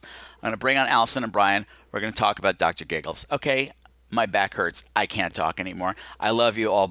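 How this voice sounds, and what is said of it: Voice with a strained hitch. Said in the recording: “the hitch in my voice is half emotion. It's partly emotion, but it's mostly pain right now”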